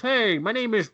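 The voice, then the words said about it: Imitates a stereotypical white voice. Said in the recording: “put on your white voice.”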